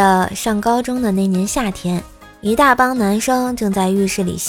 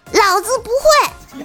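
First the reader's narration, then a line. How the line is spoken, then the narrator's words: Arrogant shout. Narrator (Chinese): 他嚣张的喊了一句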